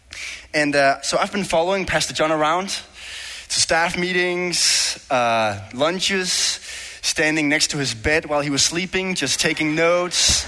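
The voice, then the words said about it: Danish-accented English. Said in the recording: “what's up with that accent? Is he really from Denmark or is he from Minnesota or something? ... my Danish English, my Denglish”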